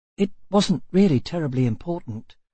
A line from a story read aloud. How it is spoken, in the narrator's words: said the boy still more softly